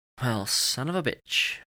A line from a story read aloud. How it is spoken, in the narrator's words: Max muttered